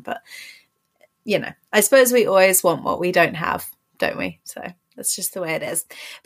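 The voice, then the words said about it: English accent. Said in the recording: “accent ... my accent obviously is nothing unique to me. I mean, I live in England, so everyone around me has pretty much the same accent”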